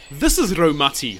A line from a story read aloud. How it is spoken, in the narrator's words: Hānui said fiercely